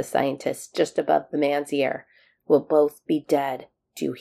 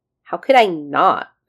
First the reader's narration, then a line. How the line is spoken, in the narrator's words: McKay snapped back